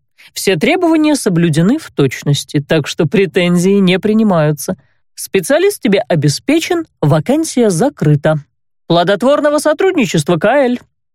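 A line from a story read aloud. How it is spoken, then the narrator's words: Openly mocking tone. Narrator (Russian): Уже откровенно насмешливым тоном пожелал незнакомец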